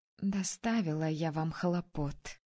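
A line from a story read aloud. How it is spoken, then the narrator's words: Tender, smiling. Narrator (Russian): нежно улыбаясь искреннему порыву девушек, произнесла я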